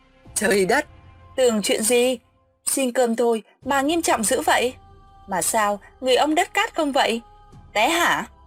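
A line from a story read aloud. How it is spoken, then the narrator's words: Laughing. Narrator (Vietnamese): Hoa bật cười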